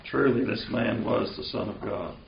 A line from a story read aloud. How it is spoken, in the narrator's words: the centurion who stood facing him saw that in this way he breathed his last, he said